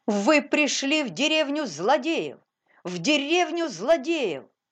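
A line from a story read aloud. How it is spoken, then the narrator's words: Sudden shout. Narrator (Russian): Паули из Ветерхофа вдруг закричал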